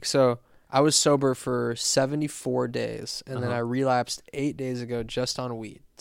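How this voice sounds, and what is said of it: Raspy voice. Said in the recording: “why my voice is all fucking raspy”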